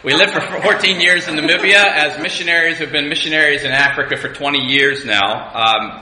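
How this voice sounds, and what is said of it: American accent. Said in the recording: “my funny accent, I'm an American”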